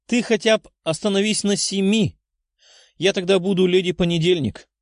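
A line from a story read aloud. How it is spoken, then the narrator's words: Giggling. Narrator (Russian): хихикая сказала Лиза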